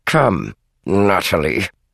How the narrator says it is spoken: he said her name through clenched teeth

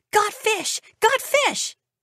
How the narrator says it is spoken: Elton Petrushki would jump up and down and yell

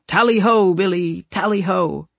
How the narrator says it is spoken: one of the kids was shouting

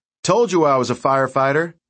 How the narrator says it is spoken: Mike shouted

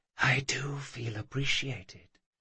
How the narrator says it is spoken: She whispered

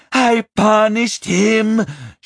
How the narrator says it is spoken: she screamed

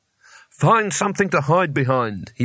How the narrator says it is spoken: he barked, with his voice shaking only slightly

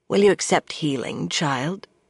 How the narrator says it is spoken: Anaya asked

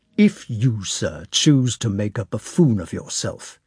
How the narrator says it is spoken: he said sharply with a slight trembling of the lower jaw

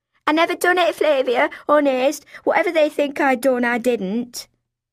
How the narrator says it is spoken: he blurted out

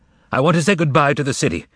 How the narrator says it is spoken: shouted the master

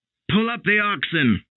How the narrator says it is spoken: the man with the lantern shouted

